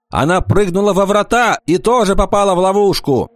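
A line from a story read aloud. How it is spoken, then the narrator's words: Priest shouting. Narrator (Russian): Жрец Витрас закричал ему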